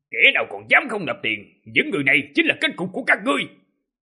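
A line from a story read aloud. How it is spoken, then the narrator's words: Murderous loud bellow. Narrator (Vietnamese): sát ý, trong mắt rực lên ngọn lửa độc ác, quát lớn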